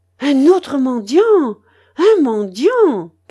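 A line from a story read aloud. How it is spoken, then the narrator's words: Grandmother's shout. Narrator (French): cria la babouchka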